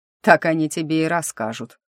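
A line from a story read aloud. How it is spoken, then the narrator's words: Snort. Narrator (Russian): фыркнул Титан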